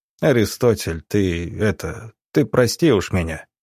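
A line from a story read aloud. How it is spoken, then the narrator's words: Very quiet, guilty. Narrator (Russian): совсем тихо произнес Субботин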